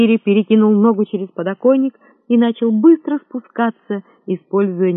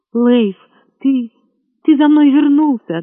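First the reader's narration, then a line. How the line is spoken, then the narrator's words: Trembling, tearful reply. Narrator (Russian): ответила она дрожащим голосом и улыбнулась, глядя на него заплаканными глазами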